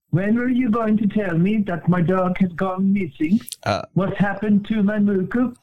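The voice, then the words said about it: Accented speech, question-like intonation. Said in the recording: “The way you speak, it kind of sounded like a question. ... You are insulting my accent?”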